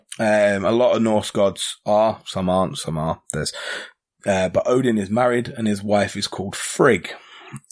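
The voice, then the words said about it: English accent from near London. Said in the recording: “Watford is a little town just north of London, which is why I've got a dodgier accent than Lee”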